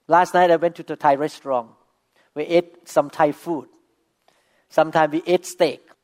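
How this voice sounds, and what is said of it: Non-native, non-American English accent. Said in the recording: “My accent is not typical American people... I still speak with accent. I still sometimes make wrong pronunciation.”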